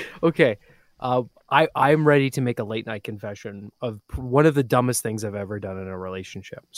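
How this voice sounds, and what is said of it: Usual voice. Nothing is said of it.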